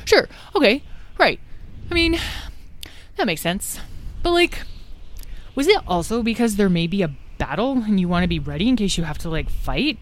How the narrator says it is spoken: Said Tom, looking nervously

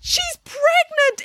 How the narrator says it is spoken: exclaimed Melanie with delight

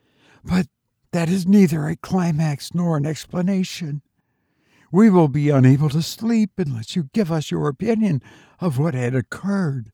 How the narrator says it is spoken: One of them exclaimed

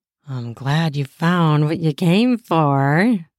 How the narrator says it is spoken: she said in a lusty voice not at all veiled

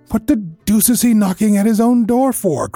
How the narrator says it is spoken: cried the clerk

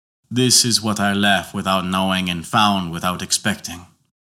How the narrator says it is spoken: sighed painfully, and said within himself

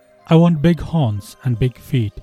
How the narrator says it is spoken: said he

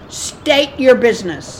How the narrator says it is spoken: shouted Sheila through the broken glass of the cabin

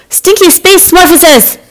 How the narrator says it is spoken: Space Invader Gerry shouted

